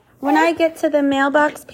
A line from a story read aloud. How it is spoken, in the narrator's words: panted Grover